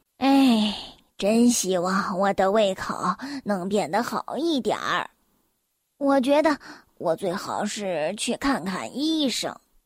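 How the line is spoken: Sighing. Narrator (Chinese): 瘦先生叹了口气说

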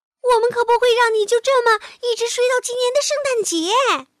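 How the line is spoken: Small creature shouting in ear. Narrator (Chinese): 小老鼠对着贝尔熊的耳朵叫着

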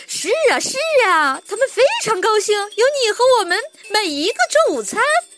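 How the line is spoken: Hearty laughter. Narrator (Chinese): 汤姆大笑起来

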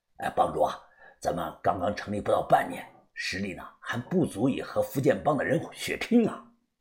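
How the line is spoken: Grim low voice. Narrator (Chinese): 老台面色极其的难看，他低声的说道

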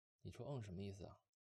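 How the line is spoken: Flat, indifferent. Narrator (Chinese): 他淡淡的说

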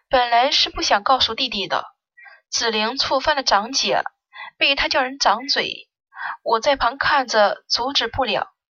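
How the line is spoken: Soft sighing. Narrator (Chinese): 顾兰柔柔的叹了口气

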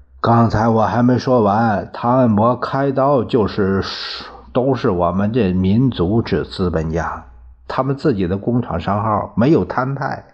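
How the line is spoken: Long sigh. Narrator (Chinese): 荣毅人长叹一声

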